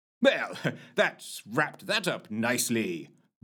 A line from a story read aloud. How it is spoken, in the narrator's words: boomed Dr